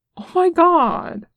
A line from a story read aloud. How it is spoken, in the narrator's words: Nick exclaimed